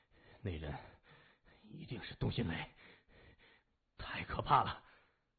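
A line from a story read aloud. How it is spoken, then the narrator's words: Frightened, breathless. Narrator (Chinese): 心里一阵后怕 心脏扑通通的乱跳 咽了口唾沫 喘息着说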